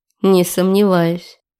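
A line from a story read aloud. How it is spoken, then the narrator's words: Muttered under breath. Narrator (Russian): пробурчала себе под нос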